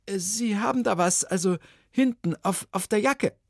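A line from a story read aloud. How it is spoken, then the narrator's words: Stammering. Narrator (German): stammelte Ilona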